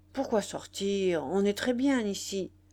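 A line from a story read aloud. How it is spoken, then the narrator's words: Grumpy. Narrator (French): Il répondit d'un ton grognon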